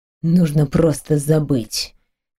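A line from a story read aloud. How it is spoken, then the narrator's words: Quiet and harsh. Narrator (Russian): тихо и жестко произнес он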